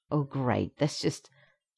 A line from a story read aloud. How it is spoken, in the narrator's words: the Canadian sighs and says